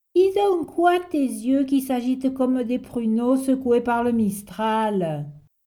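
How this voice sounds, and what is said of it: Strong southern French accent. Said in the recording (French): “avec un fort accent du midi”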